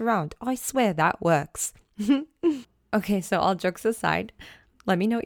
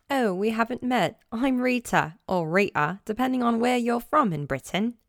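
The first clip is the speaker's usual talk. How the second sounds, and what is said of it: Put-on British accent. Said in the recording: “I should do it in my British accent ... Do you like my British accent? I've been doing it since I was a kid.”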